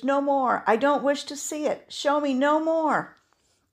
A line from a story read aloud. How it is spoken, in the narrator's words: cried Scrooge